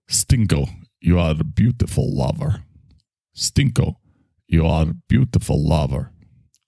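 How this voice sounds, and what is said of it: Put-on Russian accent. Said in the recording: “I can learn how to do an accent. I learned how to do Russian by watching, what was that Meryl Streep movie? Sophie's Choice. ... And I just kept saying that one line over and over.”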